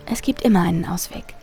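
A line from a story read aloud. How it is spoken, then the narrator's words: Soft. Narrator (German): sagte sie leise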